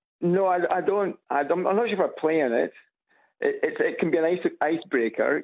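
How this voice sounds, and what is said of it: Scottish accent. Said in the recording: “you've got this Scottish accent”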